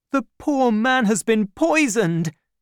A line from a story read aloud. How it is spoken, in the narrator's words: cried D'Artagnan